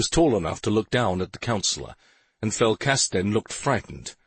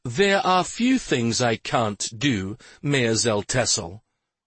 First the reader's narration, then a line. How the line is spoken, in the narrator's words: Stephen replied